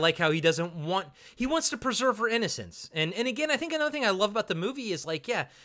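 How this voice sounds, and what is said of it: Usual voice. Nothing is said of it.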